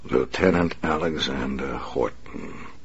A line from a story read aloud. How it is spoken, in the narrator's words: the Batman said softly